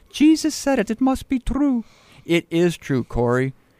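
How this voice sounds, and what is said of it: Poor put-on Dutch accent. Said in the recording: “my poor Dutch accent ... It was pretty bad. It was bad ... It's horrible ... Terrible”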